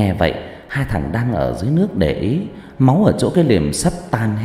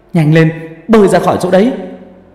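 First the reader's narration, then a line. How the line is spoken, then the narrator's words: Shouting. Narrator (Vietnamese): thằng Dũng hét lên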